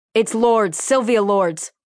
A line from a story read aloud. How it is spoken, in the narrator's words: Russell yell to Lieutenant Lopez